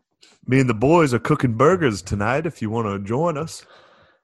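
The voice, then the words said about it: Put-on Southern US accent. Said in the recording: “You should just take a southern accent the whole time you're down there.”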